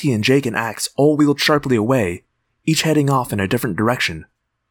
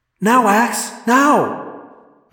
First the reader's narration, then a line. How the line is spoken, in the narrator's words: yelled